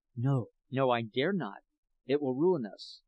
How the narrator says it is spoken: he whispers

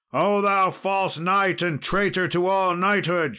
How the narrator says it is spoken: shouted he

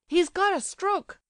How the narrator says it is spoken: cried Kolya loudly, realizing what was the matter at last

